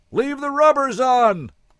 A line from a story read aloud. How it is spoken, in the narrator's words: Lena bellows